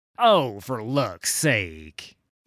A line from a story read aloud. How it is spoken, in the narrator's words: he snaps